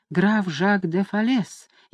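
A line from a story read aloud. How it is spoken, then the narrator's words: Barely audible. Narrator (Russian): еле слышно ответила Люсинда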